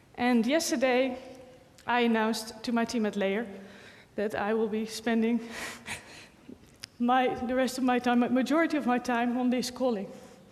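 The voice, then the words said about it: Emotional, choked-up voice. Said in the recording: “sorry, getting emotional.”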